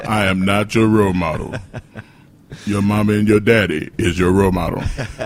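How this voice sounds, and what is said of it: Poor imitation of another person's voice. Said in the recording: “I'm turning to Charles Barkley now... That's a horrible Charles Barkley impersonation... I don't even know what he sounds like, so it's perfect to me”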